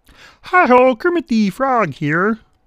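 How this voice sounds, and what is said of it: Poor Kermit the Frog voice. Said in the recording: “Kermit the Frog. And I do a really poor uh, impersonation.”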